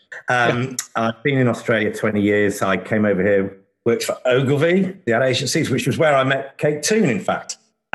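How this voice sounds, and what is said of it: English accent. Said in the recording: “my Australian accent is almost as bad as yours was, because I'm English”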